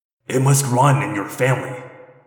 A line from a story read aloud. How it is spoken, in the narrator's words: he growled